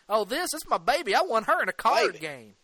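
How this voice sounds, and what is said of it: Put-on redneck Southern accent. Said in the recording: “he dips into his redneck accent”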